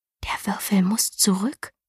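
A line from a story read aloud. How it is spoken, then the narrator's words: Whisper. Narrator (German): flüsterte Galina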